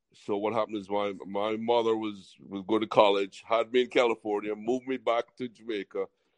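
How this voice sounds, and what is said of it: Jamaican accent. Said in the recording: “all my family were from Jamaica ... I really grew up in an island tradition. That's why I got this accent”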